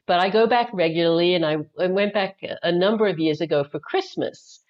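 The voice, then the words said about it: Australian accent. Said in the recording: “I have an accent. I'm actually originally from Australia”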